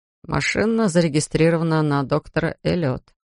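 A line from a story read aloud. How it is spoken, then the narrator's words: Sad addition. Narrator (Russian): печально добавил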